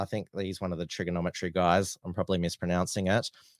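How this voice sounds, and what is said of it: Usual voice. Nothing is said of it.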